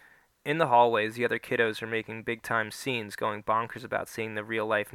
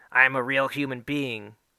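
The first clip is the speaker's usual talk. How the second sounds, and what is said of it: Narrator voicing a character. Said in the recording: “in my Natch Queen voice”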